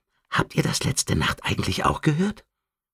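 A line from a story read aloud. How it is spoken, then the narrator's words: Whispered. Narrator (German): flüsterte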